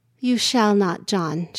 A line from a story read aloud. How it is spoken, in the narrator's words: responded, still softly